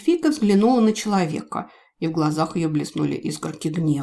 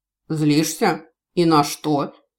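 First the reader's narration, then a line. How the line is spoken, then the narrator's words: Skeptical snort. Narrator (Russian): хмыкнул Гард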